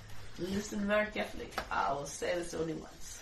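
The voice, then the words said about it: Comic French accent. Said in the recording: “I cannot resist it just to do my French accent... speaking a French accent”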